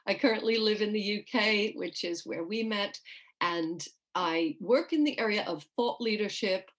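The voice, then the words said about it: New York accent. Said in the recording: “I grew up in New York. So if anybody's hearing a strange accent, that's why.”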